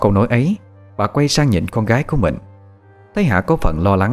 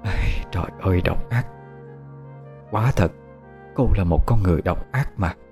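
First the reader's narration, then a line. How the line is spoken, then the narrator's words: Pensive mutter. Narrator (Vietnamese): mẹ của Nhật Hạ trầm tư, lẩm bẩm một câu không đầu không đuôi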